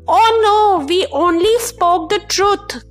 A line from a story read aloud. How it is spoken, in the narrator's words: cried the two shoe tongues together